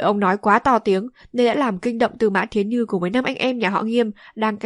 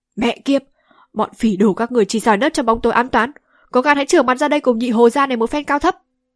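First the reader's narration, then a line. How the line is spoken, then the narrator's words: Angry cursing. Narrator (Vietnamese): Nhị Hồ tính thẳng thắn nhất, không nén được tức giận mắng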